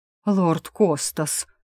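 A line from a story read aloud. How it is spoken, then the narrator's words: Reverent breathy murmur. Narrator (Russian): благоговейно выдохнул преподобный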